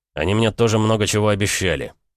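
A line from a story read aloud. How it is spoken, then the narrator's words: Rude interruption. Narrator (Russian): прервал я ее грубо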